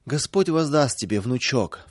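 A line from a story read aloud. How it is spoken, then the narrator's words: Grandmother sobbing. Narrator (Russian): всхлипывала бабушка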